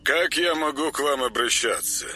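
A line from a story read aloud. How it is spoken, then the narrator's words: Formal male voice, phone. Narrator (Russian): осведомилась трубка казенным мужским голосом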